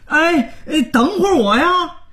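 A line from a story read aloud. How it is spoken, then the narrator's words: Hurried loud shout. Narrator (Chinese): 连忙大喊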